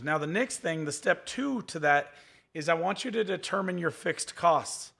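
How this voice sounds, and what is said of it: Strained, hoarse, fading voice. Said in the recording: “I'm going to lose my voice even more today.”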